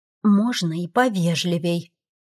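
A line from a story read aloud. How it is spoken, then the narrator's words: Quiet mutter under breath. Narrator (Russian): тихо себе под нос пробурчала я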